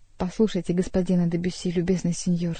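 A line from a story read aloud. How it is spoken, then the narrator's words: Plain. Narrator (Russian): сказала Жанна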